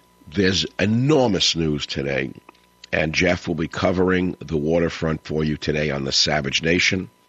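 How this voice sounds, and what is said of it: Hoarse voice from a head cold. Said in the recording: “I'm recovering from a bit of a head cold. The old voice has gotten affected. ... my voice is out”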